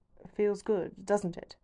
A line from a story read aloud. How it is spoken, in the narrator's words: he murmurs